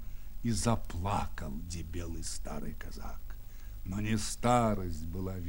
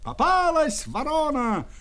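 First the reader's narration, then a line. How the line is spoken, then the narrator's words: Crowd shouting. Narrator (Russian): кричали ляхи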